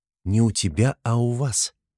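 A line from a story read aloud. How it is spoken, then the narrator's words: Soft correction. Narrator (Russian): Поправила его Соня, но говорила она мягко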